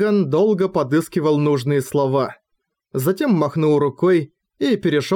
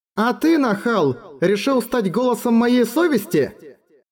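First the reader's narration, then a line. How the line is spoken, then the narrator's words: Burst out laughing. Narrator (Russian): Эрегон расхохотался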